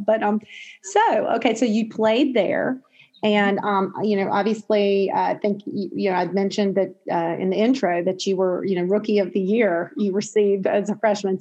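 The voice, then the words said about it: Southern US accent, North Carolina. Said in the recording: “you may tell from the accent, I'm a native Southerner, native North Carolinian”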